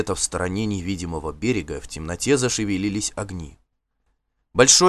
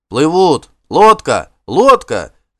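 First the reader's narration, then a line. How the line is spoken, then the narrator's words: Shouting crowd. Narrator (Russian): закричали барланцы вокруг нее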